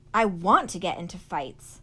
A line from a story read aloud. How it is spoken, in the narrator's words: said fiercely